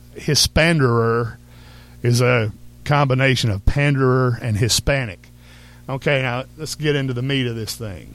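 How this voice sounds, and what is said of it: Thick Texas accent. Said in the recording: “our audience that's not from Texas, I know my accent is very thick.”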